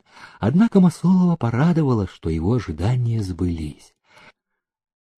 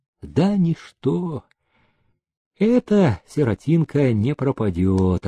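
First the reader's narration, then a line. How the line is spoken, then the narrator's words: Relieved sigh. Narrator (Russian): облегченно вздохнул он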